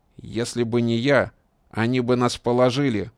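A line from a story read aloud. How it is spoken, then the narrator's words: Angry retort. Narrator (Russian): зло возразил Шамсудин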